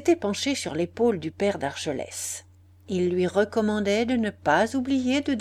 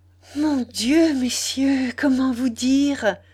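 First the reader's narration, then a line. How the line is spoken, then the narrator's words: Breathless joy-choked exclamation. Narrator (French): s'écria Marie de sa voix haletante, brisée de bonheur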